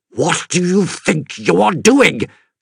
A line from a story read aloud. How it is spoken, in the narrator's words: Carter spluttered